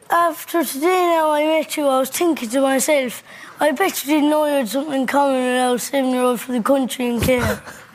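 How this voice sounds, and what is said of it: Distinctive regional Irish accent. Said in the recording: “I love his accent.”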